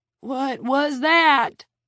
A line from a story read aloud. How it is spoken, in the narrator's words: Red shouted in a cracked voice